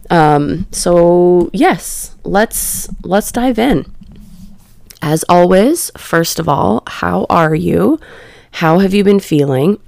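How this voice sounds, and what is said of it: Slightly scratchy voice. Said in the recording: “You can probably hear my voice is a little bit scratchy”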